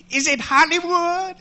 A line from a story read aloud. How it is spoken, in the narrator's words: him shouting